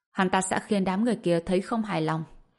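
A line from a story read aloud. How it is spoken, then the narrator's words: Cold. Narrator (Vietnamese): Tùng Lệ Nhã lạnh lùng nói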